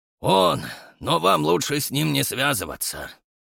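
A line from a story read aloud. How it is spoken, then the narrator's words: Grim. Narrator (Russian): мрачно сказал аристократ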